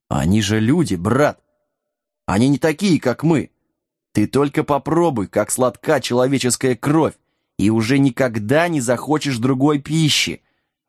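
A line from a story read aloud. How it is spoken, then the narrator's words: Gentle, coaxing. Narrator (Russian): ласково начал один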